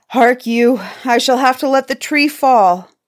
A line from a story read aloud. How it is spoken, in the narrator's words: The giant could go no further and cried